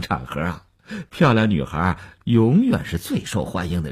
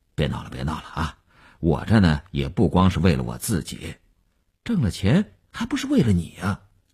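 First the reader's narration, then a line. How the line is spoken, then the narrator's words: Brief laugh, checking himself. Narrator (Chinese): 刘文庆笑了一下，及时收住说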